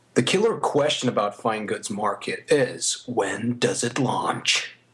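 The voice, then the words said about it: Put-on American accent. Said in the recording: “I'll use my American accent for this.”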